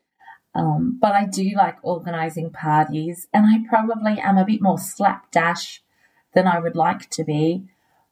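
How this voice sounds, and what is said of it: Australian accent. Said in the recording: “Lovely Australian accent there.”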